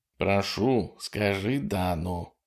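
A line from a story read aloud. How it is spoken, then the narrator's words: Whisper. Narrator (Russian): прошептал Курт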